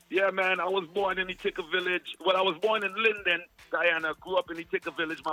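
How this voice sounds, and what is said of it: Slight Jamaican accent. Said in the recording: “a little bit of Jamaican accent”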